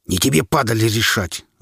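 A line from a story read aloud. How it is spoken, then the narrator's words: Spiteful, forced out. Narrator (Russian): злобно выдавил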